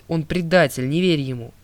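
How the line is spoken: Attempted shout. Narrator (Russian): Я попытался крикнуть

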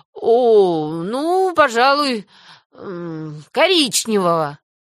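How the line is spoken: Forced, reluctant. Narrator (Russian): выдавил из себя Мэтью

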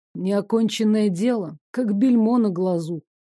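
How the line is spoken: Heavy sigh. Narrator (Russian): Крылатый тяжело вздохнул

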